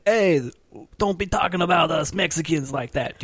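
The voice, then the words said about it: Put-on Mexican accent. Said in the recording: “Do you like my accent?”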